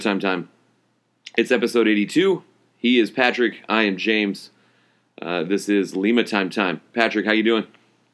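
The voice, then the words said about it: Hoarse, strained voice. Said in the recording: “my voice is a little bit shot ... hoarse from yelling”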